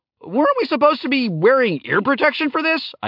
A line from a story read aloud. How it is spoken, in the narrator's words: I yelled